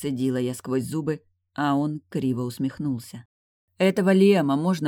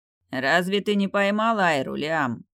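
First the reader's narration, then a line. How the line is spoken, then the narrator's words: Displeased soldier grumbling. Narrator (Russian): недовольно проворчал один из военных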